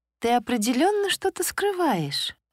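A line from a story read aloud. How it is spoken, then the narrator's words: Playful laughing. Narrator (Russian): подруга задорно рассмеялась, видя мое замешательство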